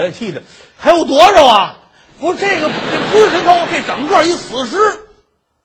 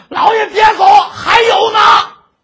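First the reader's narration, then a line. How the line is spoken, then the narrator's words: Officer shouting. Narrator (Chinese): 树里边那差人喊上了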